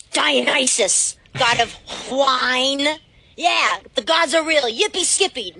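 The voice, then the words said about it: Imitates another person's voice. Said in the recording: “your best George Salazar impression”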